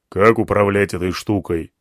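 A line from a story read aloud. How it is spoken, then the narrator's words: Plain. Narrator (Russian): спросил слон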